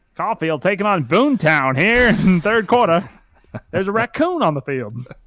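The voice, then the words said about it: Southern play-by-play announcer voice. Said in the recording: “He does like a Southern Alabama... a play-by-play guy... He just like does a Southern accent”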